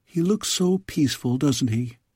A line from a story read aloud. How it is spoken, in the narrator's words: whispered Milouend